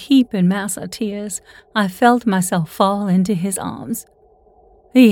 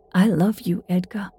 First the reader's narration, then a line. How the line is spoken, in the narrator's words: I whispered